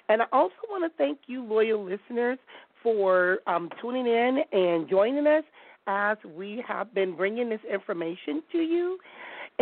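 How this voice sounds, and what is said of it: Voice sounds impaired. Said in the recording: “my voice is messed with”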